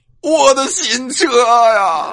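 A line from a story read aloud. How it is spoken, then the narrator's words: Hysterical wailing. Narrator (Chinese): 又歇斯底里的哭喊起来呀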